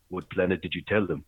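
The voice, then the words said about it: Put-on African accent. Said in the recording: “in this African accent”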